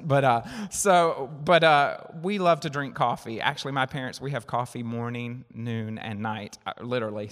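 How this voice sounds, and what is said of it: Southern US accent. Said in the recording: “I'm from down south. You might not can tell, right, by my accent.”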